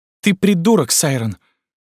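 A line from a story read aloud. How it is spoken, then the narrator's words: Unfamiliar indignant admiring voice. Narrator (Russian): услышал я чей-то незнакомый, возмущенно восхищенный голос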